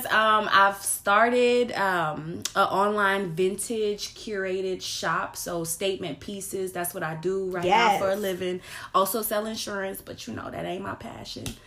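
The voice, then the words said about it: New Orleans accent. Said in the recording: “I'm from New Orleans, so I'm sure y'all gonna hear my accent. ... a little bit of her New Orleans accent”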